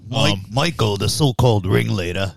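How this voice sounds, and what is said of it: British accent. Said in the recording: “your British accent”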